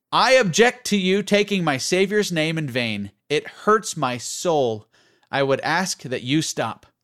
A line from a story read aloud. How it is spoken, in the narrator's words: the young man loudly declared